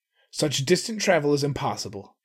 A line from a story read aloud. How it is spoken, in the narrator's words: he snapped